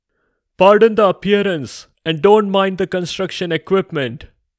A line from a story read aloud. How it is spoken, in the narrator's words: screamed at them over the loud noise of the jackhammers